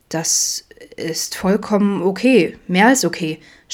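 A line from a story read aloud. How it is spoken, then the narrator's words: Stammering. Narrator (German): stammelte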